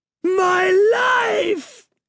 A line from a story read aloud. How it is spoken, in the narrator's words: She shrieked